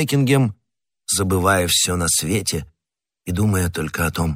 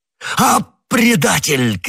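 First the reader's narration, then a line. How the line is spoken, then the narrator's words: Shouted. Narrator (Russian): крикнул Бекингем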